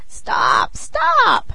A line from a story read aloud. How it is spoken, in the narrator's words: cried she, pretending to be smothered